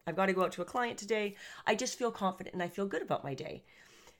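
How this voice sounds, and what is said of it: Upbeat, energetic voice. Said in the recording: “as you can hear from my voice, I'm very up. I'm very positive.”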